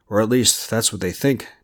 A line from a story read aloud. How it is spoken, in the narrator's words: Devin said, his tone suddenly grim